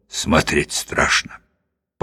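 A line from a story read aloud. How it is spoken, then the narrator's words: Muttering. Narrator (Russian): Клетчатый бормочет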